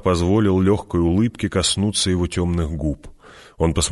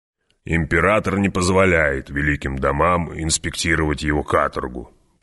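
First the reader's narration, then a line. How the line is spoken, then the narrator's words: Grumbling. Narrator (Russian): проворчал барон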